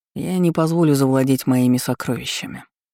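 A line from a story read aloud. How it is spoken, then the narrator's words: Calm remark. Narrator (Russian): спокойно заметил Ролан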